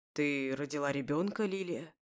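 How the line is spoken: Hoarse, slight accent. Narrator (Russian): Хрипло говорит он на русском языке с едва уловимым акцентом

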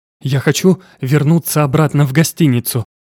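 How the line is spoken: Convulsive gasp. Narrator (Russian): судорожно выдохнула Тия

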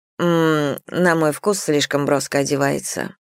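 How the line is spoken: Dry reply. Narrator (Russian): сухо ответила миссис Мэллоун

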